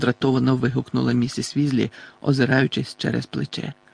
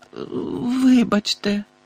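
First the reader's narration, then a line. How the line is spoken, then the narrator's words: Groaning while lying on floor. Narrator (Ukrainian): простогнала Тонкс, простягшись на підлозі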